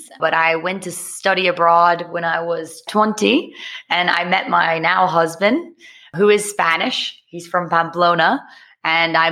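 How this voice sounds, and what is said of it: American English accent. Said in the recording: “accent because people are sitting here listening to someone who sounds American,”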